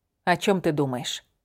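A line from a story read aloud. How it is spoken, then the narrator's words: Soft question. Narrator (Russian): мягко спросила я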